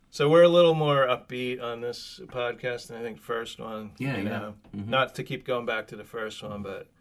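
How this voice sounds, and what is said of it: Slightly rough, hoarse voice. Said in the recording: “my voice is a little. I'm usually a great singer. My voice is a little rough this morning. ... Yeah, a little ... bit.”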